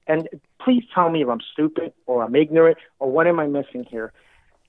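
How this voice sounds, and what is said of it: Slight Hispanic New York accent. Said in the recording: “I'm Hispanic, and I grew up in New York City. I'm pretty sure you can hear the little accent”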